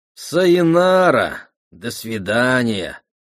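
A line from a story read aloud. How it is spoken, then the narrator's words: Drawn-out, disappointed. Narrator (Russian): протянул он разочарованно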